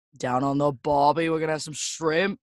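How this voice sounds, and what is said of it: Bad stereotypical Australian accent. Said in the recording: “I'm terrible with Australian accents. I really am... I got the most stereotypical Australian accent.”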